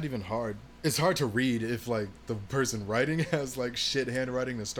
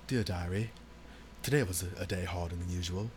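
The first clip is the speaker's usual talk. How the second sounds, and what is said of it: Fancy put-on accent. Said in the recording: “It makes me feel, like, kind of fancy when I'm writing in cursive... You're talking in the accent as you're writing out your words.”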